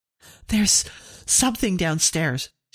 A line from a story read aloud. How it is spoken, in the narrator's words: she cried